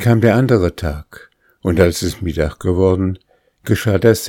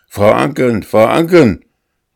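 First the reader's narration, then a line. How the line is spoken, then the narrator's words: Calling out. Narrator (German): rief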